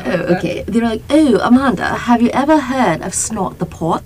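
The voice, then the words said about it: Poor British accent drifting Australian. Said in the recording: “Keep going with the British accent. ... getting Australian. ... I don't know how to do a British accent.”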